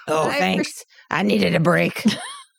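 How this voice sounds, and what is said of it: Mrs. Claus character voice. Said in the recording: “The Mrs. Claus goes off and says, oh, thank you, dearie. ... Yes. Yes, that's her. ... do the voices for the NPCs”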